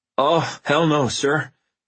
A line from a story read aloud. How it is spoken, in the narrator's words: he said in a shaky voice